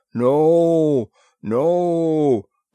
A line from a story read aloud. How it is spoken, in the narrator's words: boomed in thunderous humility